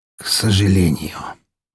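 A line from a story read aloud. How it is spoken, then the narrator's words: Hoarse wheeze. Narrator (Russian): прохрипел Распутин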